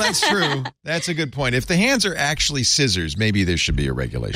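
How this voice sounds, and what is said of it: Usual voice. Nothing is said of it.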